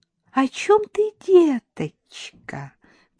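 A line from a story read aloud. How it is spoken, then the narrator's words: Sweet honeyed inquiry. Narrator (Russian): прежним медовым голосом осведомилась Шурочка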